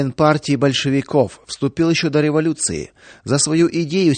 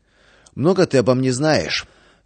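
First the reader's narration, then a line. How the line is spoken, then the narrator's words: Angry, still catching breath. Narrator (Russian): отдышавшись, зло спросил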